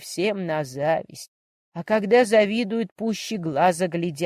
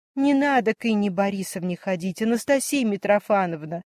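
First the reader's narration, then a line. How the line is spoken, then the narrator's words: Pleading. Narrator (Russian): взмолилась Варя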